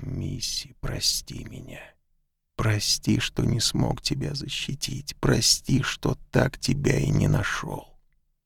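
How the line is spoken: Barely audible whisper. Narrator (Russian): он еле слышно шептал

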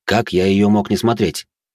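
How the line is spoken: Amused, suppressing smile. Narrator (Russian): хмыкнул, сдерживая улыбку

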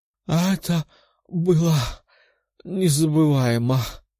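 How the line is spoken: Moan. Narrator (Russian): простонала

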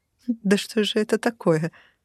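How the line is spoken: Nervous laugh. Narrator (Russian): Я нервно рассмеялась

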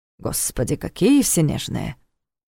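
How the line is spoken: Grumbling. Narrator (Russian): проворчал Карл

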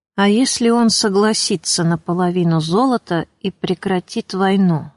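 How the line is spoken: Strange calm muffled voice. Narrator (Russian): спросил Матюш чужим, до странности спокойным, глухим голосом

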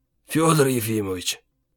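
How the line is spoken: Hoarse sick voice. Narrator (Russian): начал разговор хриплым больным голосом

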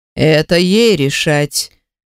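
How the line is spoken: Calm reply. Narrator (Russian): спокойно отвечает Аратон десятый

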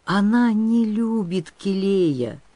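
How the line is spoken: Sorrowful sigh. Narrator (Russian): Выр горестно вздохнул

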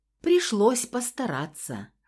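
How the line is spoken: Amused snort. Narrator (Russian): хмыкнул Феникс

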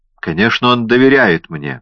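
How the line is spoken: Angry. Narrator (Russian): сердито сказала Реа

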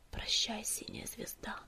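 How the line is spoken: Whisper. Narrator (Russian): прошептал Огнегриф

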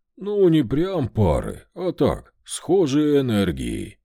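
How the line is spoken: Evasive. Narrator (Russian): уклончиво сказал Вольт

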